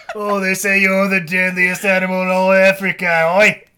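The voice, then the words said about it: Imitates another person's voice. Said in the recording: “I don't know why I have that accent. It was played by Jason Statham. That's why he has that accent.”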